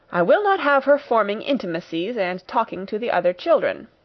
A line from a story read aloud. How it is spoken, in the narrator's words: that lady said